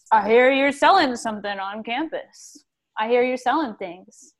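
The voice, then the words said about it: Intimidating, very deep voice. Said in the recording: “very intimidating in very deep voice”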